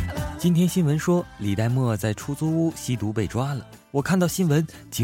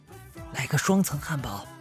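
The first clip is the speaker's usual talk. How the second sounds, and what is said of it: Quiet, hushed whisper. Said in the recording (Chinese): “小声地”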